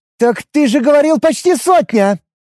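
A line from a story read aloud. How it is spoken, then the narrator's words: Indignant shout. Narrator (Russian): С внезапно вспыхнувшим негодованием выкрикнула я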